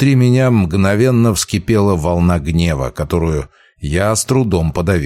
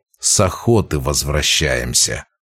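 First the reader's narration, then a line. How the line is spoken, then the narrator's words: Through clenched teeth. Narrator (Russian): процедил я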